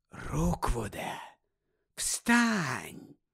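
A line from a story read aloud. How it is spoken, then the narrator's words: Whispered. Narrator (Ukrainian): прошепотів Гаррі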